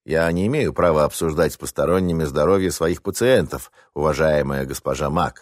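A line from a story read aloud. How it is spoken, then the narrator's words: Formal tone, doctor. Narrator (Russian): официальным тоном начал речь доктор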